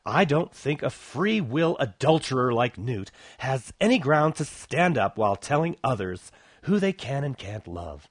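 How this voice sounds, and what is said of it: Exaggerated put-on lisping voice. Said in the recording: “the phony homo lisp”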